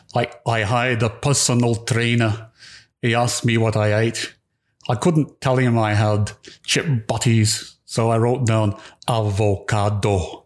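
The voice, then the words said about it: Slow imitated Scottish accent. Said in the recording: “He speaks with a Scottish accent, he slows it down.”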